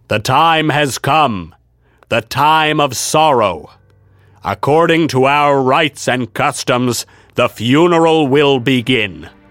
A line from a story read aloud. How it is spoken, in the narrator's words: in the same stentorian tones as before, Sir Littleman said